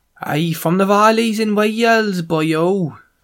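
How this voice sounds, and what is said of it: Put-on Welsh accent, not very good. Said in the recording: “That's my Welsh accent. ... I need to spend more time there and get better at it.”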